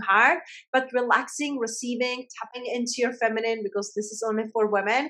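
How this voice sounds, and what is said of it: Speaks with a noticeable accent. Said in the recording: “with my accent, we can be here for an hour”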